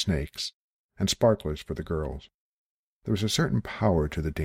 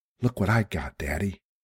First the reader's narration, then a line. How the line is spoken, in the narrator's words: said breathlessly